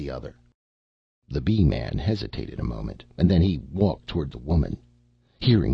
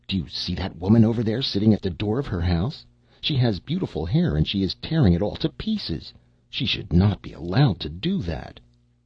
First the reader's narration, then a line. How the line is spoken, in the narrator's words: the youth exclaimed